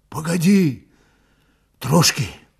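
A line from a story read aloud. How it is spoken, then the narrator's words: Hoarse speech. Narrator (Russian): хрипло проговорил Пантелей Прокофьевич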